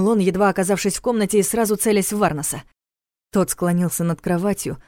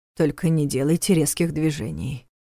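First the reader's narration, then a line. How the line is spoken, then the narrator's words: Strange unfamiliar voice, commanding. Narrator (Russian): каким-то чужим незнакомым голосом велел Нев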